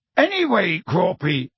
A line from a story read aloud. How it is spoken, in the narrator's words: shouted Hagrid